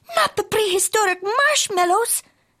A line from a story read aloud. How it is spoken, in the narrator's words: exclaimed Skippito